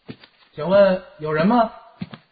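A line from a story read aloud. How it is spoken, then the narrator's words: Echoing in empty courtyard. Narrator (Chinese): 声音在空荡的庄院里回响着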